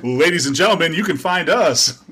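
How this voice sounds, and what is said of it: Announcer-style radio voice. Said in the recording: “Your radio voice. I love it.”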